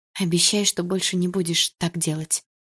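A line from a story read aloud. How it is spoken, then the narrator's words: Quiet plea. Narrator (Russian): тихо попросила я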